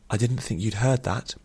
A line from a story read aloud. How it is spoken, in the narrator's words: she said very quietly